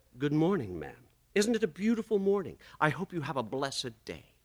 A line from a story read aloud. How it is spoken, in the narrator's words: smiled sweetly, and said